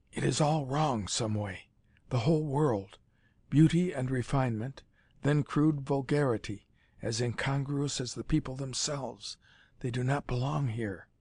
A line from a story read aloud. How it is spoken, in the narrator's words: He leaned closer to whisper